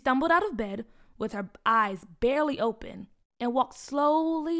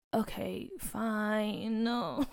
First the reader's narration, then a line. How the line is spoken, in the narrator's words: Peach grumbled